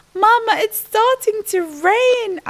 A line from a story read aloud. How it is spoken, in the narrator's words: I whimpered